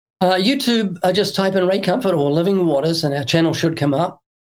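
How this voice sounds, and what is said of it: New Zealand accent. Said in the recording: “it's in a New Zealand accent. And so my books are in New Zealand accent.”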